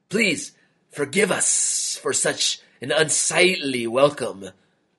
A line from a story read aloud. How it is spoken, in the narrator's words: the cobra hissed